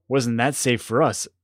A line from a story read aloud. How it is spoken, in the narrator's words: said Elias